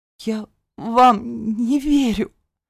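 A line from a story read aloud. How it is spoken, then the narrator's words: Sobbing. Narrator (Russian): всхлипнула я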